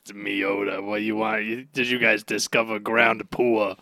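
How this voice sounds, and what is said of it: Gravelly Moe from The Simpsons voice. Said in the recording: “a really gravelly, like Simpsons character ... I was going Mo from the Simpsons”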